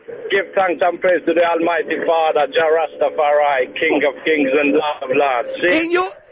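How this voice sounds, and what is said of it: Put-on Jamaican accent. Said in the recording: “Can you do a Jamaican accent? ... I can do a better Jamaican accent than Geordie.”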